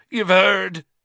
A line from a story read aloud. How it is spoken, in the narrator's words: he bellowed